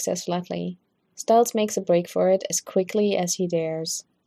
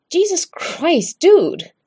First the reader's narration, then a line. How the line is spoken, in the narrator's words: He yelps